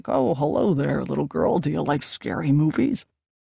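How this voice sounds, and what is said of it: Growly imitation of a man's voice. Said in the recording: “I imitated his growly voice and talked into my hand ... That's a terrible impersonation”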